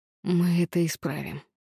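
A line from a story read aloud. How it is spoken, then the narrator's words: Through clenched teeth. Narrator (Russian): процедил сквозь стиснутые зубы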